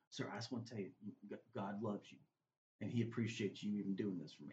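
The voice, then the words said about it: Choked-up, emotional voice. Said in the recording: “I'm getting choked up even talking”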